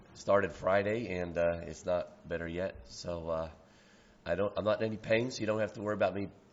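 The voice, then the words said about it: Hoarse, strained speaking voice. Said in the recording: “I'm hoarse. ... I just have a little difficulty talking”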